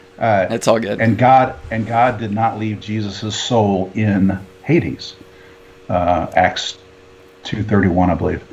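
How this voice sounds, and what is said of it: Hoarse, strained voice. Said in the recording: “something's blooming ... I'm losing my voice”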